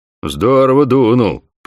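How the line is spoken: Booming nasal drone. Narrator (Russian): прогудел человек со сломанным носом

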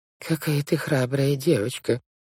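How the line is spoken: Muttered. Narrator (Russian): пробормотала тетя Жозефина

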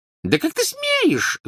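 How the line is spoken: Squeaking. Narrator (Russian): запищала тетя Петунья

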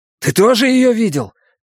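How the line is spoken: Shouting. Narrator (Russian): крикнул я

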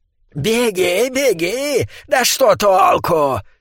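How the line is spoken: Girlish shout. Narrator (Russian): крикнул ликантроп почти девичьим голосом

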